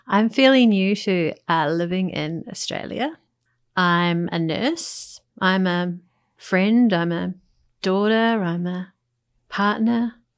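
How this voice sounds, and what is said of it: New Zealand accent. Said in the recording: “as you can tell by my accent, and sometimes there'll be giggles from some of the words that how I pronounce some words, is I'm a New Zealander”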